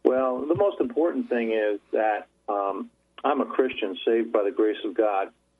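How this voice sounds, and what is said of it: Rural country accent. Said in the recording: “you sound like an old country boy to me”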